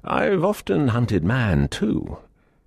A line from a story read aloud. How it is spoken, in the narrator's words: with a hearty laugh, he added